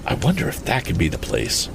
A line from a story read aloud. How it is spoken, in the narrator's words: whispered Tom, for somehow the silence of the place was getting on his nerves